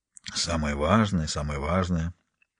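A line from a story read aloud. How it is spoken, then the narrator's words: Mildly annoyed grumble. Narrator (Russian): С легкой досадой пробурчал Харри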